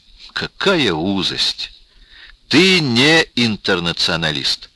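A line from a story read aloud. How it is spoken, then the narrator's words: Indignant exclamation. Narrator (Russian): воскликнул Рубин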